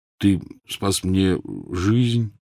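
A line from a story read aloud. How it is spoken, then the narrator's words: Muttered. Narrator (Russian): тот пробормотал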